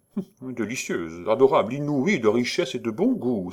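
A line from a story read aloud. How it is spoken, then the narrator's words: Prompt exclamation. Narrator (French): s'écria aussitôt monsieur de la Perrière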